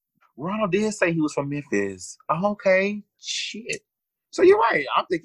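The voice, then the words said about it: Strong Southern American accent. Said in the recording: “Southern accent to a T. Not as strong as ours”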